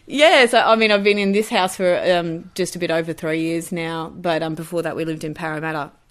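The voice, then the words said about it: Broad bogan Australian accent. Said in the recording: “how bogan does my voice go when I say Blacktown?”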